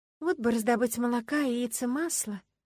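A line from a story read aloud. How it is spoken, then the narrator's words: Sighing. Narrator (Russian): вздохнула я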